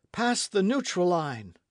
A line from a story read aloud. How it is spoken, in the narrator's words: cried Michel